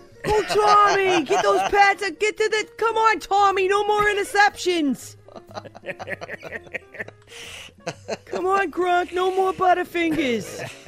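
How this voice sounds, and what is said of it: Screamed exaggerated Boston accent. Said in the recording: “the Boston accent scream his name”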